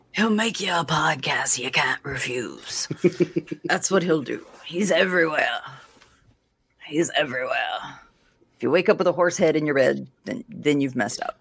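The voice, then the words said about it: Louisiana redneck accent. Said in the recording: “it was just the Louisiana accent. ... my redneck accent”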